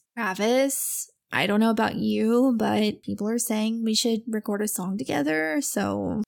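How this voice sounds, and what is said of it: Indifferent, flat impression voice. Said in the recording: “my Courtney impression ... just as indifferent as possible”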